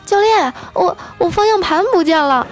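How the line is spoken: Loud cry. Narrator (Chinese): 一声大叫

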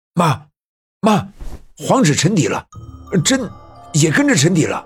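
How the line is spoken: Loud shout. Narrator (Chinese): 我爸爸站起身，大声喊道

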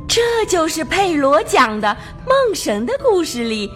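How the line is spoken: Amazed question. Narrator (Chinese): 卡门惊叹地问

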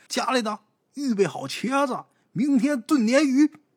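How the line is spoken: Stonemason shouting. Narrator (Chinese): 石匠喊

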